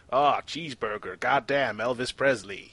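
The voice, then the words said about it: Exaggerated mock American accent. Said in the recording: “You don't sound Welsh to me. Your accent's changed. You're all like ... that's how you sound now ... He's American, basically.”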